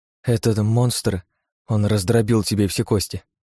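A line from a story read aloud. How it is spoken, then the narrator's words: Trembling voice. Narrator (Russian): дрожащим голосом произнесла Лия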